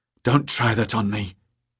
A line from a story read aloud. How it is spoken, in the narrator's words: he whispered